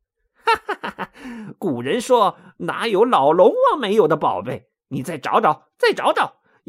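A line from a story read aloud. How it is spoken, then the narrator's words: Laughing. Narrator (Chinese): 悟空笑着说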